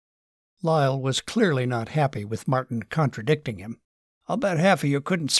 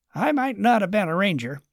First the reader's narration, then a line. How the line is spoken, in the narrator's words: Charles grumbled with sarcasm